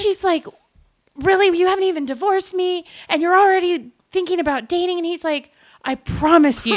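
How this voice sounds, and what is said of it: Usual voice. Nothing is said of it.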